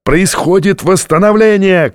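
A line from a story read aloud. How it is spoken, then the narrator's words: Shouting. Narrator (Russian): кричал Джабба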